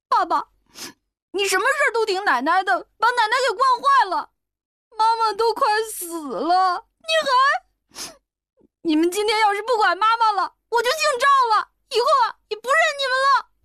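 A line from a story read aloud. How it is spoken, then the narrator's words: Child crying. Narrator (Chinese): 小孩子 哭道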